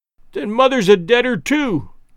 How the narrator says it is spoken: cried the little girl, sobbing bitterly

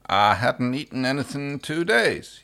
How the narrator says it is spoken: he mumbled through a mouthful of crumbs

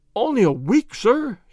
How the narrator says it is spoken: he cried, in a despairing voice

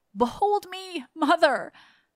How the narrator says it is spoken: he cried

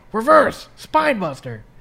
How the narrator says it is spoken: Triple H loudly says

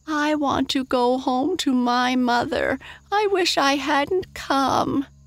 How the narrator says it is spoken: wailed Mary Virginia

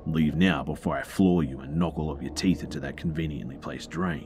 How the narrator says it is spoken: says in his most aggressive tone that he could muster

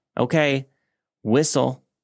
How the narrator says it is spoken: I called out

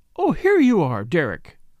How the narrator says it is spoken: cried Lady Tamplin

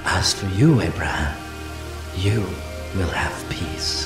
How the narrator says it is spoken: God spoke tenderly to him, saying

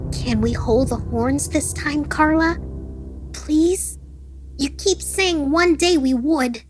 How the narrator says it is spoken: the boy pleaded

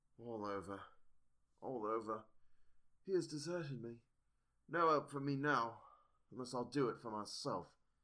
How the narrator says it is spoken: he looked very sad, and said in a sort of faraway voice, as though saying it rather to himself than to me

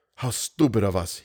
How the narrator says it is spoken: whispered

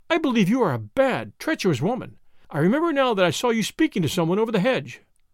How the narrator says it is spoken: cried her mistress

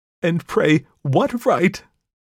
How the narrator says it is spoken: she cried

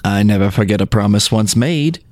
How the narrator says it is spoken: replied Jean

